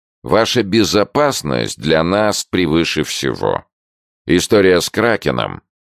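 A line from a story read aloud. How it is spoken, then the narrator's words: With a snort. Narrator (Russian): Джордж хмыкнул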